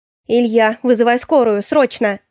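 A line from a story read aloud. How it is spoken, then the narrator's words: Urgent shout. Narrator (Russian): выкрикнула я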